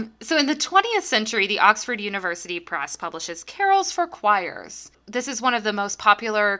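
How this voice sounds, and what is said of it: Usual voice. Nothing is said of it.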